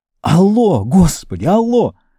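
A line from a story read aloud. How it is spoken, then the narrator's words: Shouted. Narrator (Russian): Уолтер закричал в ответ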